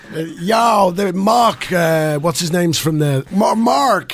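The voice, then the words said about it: Put-on Boston accent. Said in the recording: “Boston. ... Bostonian.”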